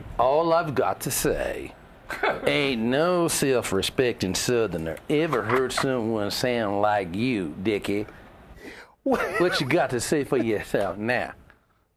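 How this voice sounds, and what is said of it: Put-on Southern American accent. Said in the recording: “It's a Southern accent”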